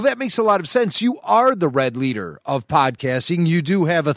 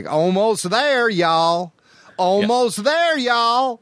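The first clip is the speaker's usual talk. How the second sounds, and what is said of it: Southern accent imitating Red Leader. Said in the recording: “a thick Southern accent, much like Red Leader did in A New Hope ... He had a Southern accent ... There's a good old boy in space ... He's like from down in Savannah, Georgia.”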